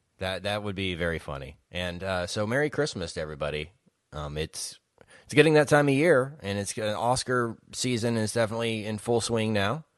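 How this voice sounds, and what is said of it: Early-morning voice. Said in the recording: “it's very early in the morning, if you can't tell by my voice.”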